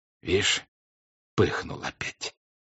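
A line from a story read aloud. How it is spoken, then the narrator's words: Whispered to himself. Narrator (Russian): проговорил Тушин шепотом про себя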